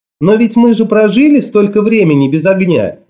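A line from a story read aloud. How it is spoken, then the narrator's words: Cheerful. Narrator (Russian): весело сказала Мот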